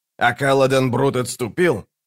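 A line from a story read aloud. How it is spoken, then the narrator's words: Snapping retort. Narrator (Russian): огрызнулся Локон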